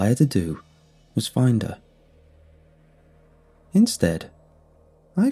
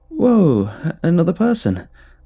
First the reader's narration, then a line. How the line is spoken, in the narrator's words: I exclaimed, hoping to sidestep the awkwardness